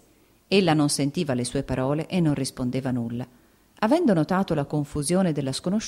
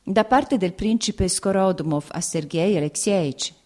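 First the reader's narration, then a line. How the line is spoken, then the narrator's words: Plain. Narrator (Italian): ella disse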